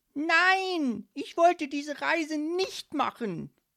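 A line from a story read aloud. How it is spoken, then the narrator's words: Energetic shout. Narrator (German): rief Leopold energisch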